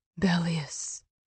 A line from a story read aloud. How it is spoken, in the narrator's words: Emery whispered